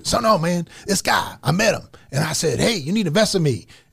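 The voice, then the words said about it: Imitates another person's voice. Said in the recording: “my Grant Cardone imitation. ... this doesn't sound like Grant Cardone at all, I feel like.”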